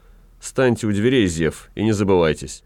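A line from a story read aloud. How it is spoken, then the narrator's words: Stern. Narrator (Russian): господин ротмистр строго сказал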